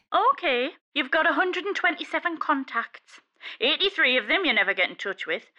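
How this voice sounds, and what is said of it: Geordie accent. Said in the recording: “So, all phones are Geordie. ... you should hear Mandarin spoken with a Geordie accent.”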